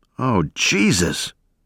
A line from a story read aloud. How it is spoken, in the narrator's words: someone moaned